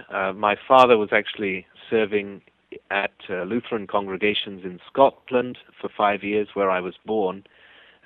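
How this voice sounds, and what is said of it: English accent. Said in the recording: “my English accent that you hear”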